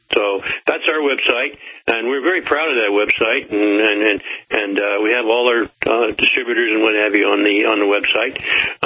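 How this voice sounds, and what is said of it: Southern American accent. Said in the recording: “I can't really get rid of that southern accent, can you?”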